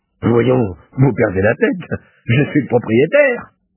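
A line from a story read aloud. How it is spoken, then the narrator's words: Vociferating, yelling. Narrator (French): en vociférant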